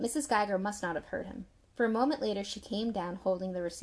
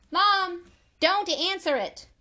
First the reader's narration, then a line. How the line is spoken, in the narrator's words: Tommy shouted up the steps